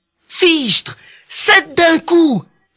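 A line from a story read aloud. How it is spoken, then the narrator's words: Amazed exclamation. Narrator (French): s'exclama le tailleur en s'émerveillant de son exploit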